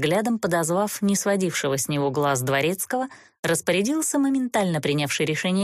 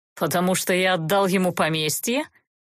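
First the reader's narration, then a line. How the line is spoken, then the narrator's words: Duke mocking suggestion. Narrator (Russian): насмешливо предположил герцог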